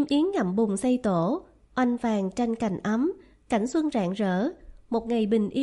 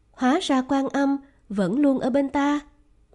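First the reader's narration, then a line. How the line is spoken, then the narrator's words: Exclaiming. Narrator (Vietnamese): Hắn thốt lên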